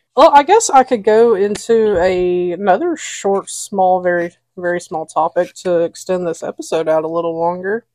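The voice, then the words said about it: Southern US accent. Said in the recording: “we are very much not a southern, what's it called? Stereotype ... We just happen to sound like it ... when we were in Scotland, they knew exactly where we were from”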